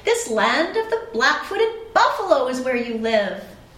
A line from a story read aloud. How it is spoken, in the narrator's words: exclaimed the boy